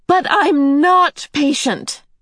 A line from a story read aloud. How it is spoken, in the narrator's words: Meg cried passionately